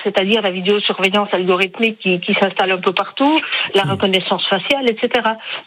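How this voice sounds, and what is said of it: Speaks with a pleasant accent. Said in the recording (French): “son bel accent”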